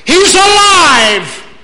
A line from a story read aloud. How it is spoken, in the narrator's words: The angel said triumphantly